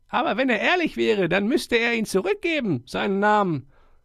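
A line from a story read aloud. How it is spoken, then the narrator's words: Small mouse, indignant shout. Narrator (German): Die kleine Maus Humbert rief empört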